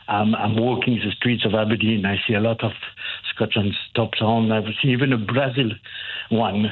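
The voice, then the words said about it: French accent. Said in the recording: “As you can hear from my accent, I'm French”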